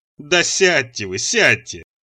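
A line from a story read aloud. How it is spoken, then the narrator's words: Speaking through laughter. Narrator (Russian): выговорил он сквозь смех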